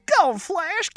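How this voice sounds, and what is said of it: Imitates a TV character's voice. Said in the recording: “You ready for my impression? ... That was awesome. I closed my eyes and I thought Roscoe was here.”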